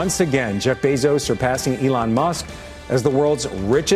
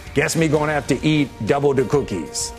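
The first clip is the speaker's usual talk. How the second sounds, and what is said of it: Poor Cookie Monster impression. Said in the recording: “terrible impression”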